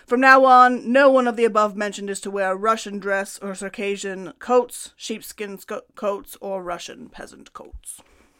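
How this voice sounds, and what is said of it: Put-on Russian accent. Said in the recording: “That was a good impression... That's my Russian accent.”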